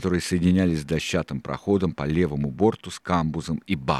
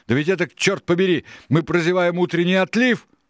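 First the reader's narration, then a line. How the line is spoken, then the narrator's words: Shouted. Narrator (Russian): закричал долговязый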